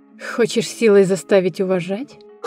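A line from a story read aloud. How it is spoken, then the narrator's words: Snorting. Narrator (Russian): Хмыкнула Ася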